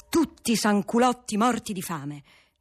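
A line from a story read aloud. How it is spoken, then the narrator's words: Monk shouting. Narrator (Italian): gridava il monaco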